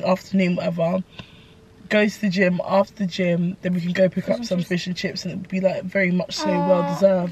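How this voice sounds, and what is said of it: Weird, ill-sounding voice. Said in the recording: “my voice is so weird ... I was ill most of this week”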